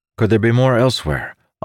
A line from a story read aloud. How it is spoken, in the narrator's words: Amandal asked, his tone urgent